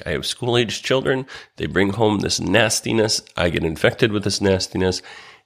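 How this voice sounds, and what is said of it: Voice sounds different from illness. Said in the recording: “my voice sounds a little bit different today because I am yet again sick”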